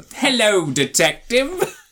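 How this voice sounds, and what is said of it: Weird classy British voice. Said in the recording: “such a weird voice ... classy British person impression”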